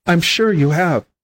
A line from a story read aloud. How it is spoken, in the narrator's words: said she